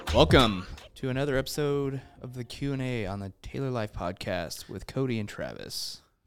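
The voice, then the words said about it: Announcer-style radio voice. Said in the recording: “That's a great radio voice.”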